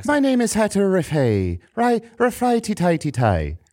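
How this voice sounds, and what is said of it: Put-on Irish accent. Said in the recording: “Do an Irish accent. ... An Irish accent.”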